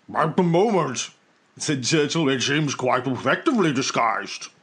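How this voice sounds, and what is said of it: Imitates another person's voice. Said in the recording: “my Churchill impersonation”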